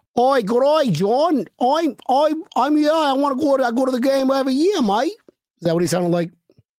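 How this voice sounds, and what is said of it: Bad put-on Australian accent. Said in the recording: “That's an Australian. ... an Australian Irishman ... that fucking accent, man. that was horrible.”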